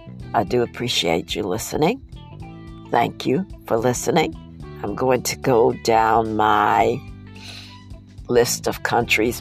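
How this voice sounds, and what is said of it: Congested, sick-sounding voice. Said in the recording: “Excuse my voice tonight. I have a cold, bad cold, so that's why I sound this way”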